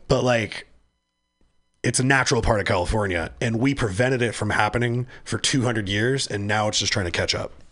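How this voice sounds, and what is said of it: Hoarse, failing voice. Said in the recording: “I can't talk. I'm losing my voice. I've been coughing.”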